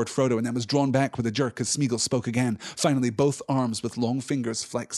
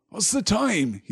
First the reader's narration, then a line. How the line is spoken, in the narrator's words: he said sleepily